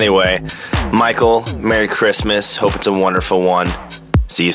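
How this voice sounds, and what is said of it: Usual voice. Nothing is said of it.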